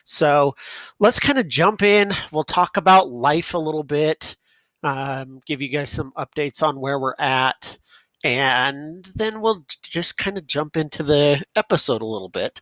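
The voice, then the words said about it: Slightly raspy voice. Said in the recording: “my voice is a little raspy ... everybody in this house had a cold”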